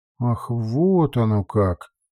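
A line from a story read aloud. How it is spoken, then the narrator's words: Drawling. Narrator (Russian): протянула госпожа Антонова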